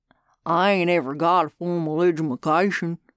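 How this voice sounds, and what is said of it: Backwoods yokel voice. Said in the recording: “slack-jawed yokel type of backwoods”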